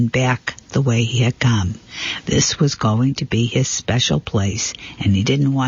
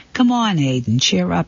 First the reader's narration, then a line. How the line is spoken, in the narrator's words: said Dad